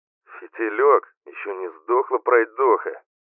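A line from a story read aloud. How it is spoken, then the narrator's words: Grumbling from inside stone. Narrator (Russian): проворчали из камня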